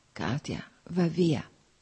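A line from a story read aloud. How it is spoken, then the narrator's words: Whispered. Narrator (Italian): sussurrò ancora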